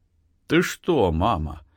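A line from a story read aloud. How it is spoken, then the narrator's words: Listless question. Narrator (Russian): спросил Артем вялым голосом, не поднимаясь с подушки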